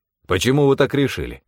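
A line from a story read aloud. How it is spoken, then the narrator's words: Sharp, curt. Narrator (Russian): резко бросил он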